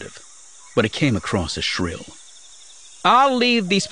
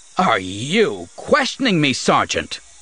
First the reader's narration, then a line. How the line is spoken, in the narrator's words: Ulibor snapped, making no attempt to keep his own voice down